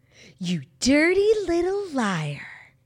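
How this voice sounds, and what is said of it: Imitates a movie character's line. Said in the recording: “When Janice Ian pops out of the sunroof ... That was like a good impression.”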